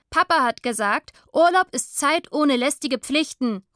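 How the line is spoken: Calling back. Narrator (German): ruft sie daher zurück

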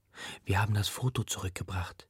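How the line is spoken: Whispered. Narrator (German): flüstere ich

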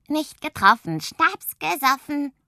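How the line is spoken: Croaking. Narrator (German): krächzt

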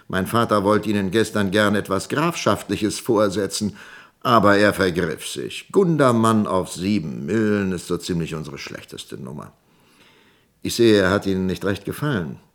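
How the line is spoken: Laughing. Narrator (German): lachte Woldemar

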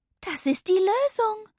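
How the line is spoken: Called out. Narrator (German): rief ich

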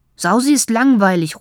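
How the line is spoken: Calling out. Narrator (German): ruft er

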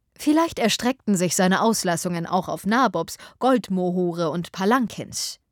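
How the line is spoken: Plain. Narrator (German): sagte Willoughby

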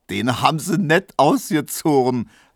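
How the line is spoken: Laughing. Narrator (German): lachte Neumann

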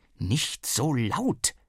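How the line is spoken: Hissed. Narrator (German): zischte Mama

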